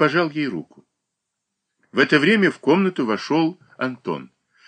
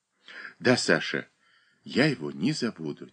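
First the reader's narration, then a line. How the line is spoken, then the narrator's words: Soft whisper. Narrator (Russian): тихо прошептала она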